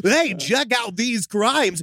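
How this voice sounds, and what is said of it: Imitated TikTok text-to-speech voice. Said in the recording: “in that TikTok voice”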